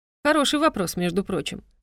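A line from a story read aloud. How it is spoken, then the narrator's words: Snorting reply. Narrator (Russian): хмыкнул в ответ Равеслаут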